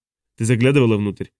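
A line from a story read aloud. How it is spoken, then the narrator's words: Plain. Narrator (Russian): спросил Хок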